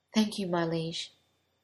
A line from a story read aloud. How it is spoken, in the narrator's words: he whispered